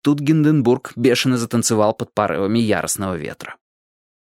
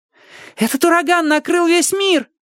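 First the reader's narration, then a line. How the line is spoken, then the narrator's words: Shouted. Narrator (Russian): закричал кто-то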